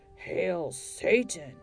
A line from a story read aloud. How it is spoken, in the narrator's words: a growling voice said in the darkness